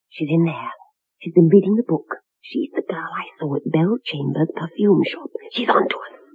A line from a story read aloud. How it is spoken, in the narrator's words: Martha whispered to Bromfield